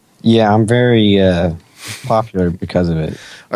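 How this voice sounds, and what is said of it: Sarcastic tone. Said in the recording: “Are you being sarcastic? ... Yeah.”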